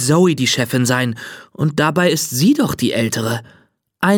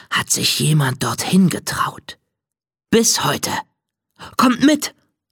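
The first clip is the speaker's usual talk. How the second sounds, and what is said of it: Conspiratorial lowered whisper. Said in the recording (German): “Zoe senkt die Stimme zu einem verschwörerischen Flüstern”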